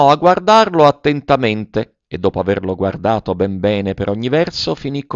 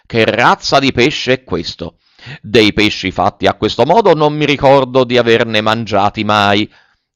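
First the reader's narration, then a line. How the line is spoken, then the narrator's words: Astonished, half-frightened shout. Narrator (Italian): dalla meraviglia gridando quasi impaurito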